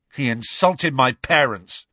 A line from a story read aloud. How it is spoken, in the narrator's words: snarled George